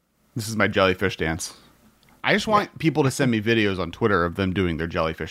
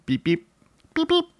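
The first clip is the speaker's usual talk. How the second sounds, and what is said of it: Beeping car crab impression. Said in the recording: “did a crab car impression ... That's my car crab impression.”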